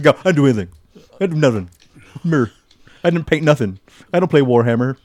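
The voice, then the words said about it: Imitates another person's voice. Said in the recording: “doing a pretty good impression of me.”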